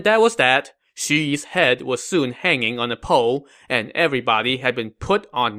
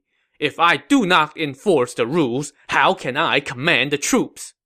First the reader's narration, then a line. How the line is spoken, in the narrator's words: Zhong Hui replied angrily